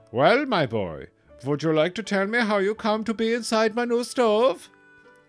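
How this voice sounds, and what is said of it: Exaggerated Austrian accent. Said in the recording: “in an Austrian accent that was getting out of control”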